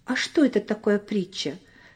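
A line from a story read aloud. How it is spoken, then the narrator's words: Plain. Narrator (Russian): спросил Коля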